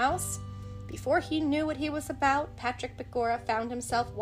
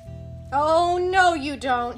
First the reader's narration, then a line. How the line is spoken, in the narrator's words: cried in alarm